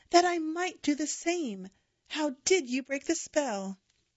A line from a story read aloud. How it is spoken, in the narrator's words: pleaded